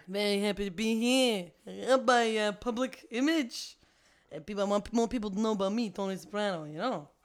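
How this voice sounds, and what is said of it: Mobster-style New Jersey character voice. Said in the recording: “definitely Tony Soprano ... this mishmash of multiple Joe Pesci characters ... this accent is flying away”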